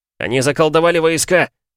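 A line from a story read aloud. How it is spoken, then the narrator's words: Shout. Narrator (Russian): крикнул Ивлад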